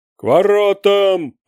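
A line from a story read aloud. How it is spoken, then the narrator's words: Thundering. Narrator (Russian): прогремел Добжинец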